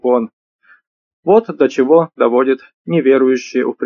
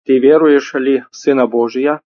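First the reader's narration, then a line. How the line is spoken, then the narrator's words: Plain. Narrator (Russian): спросил он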